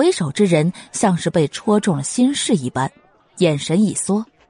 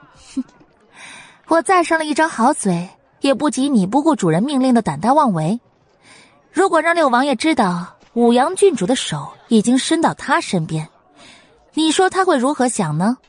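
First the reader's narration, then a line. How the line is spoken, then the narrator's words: Cold sneering retort. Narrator (Chinese): 云柯冷笑回击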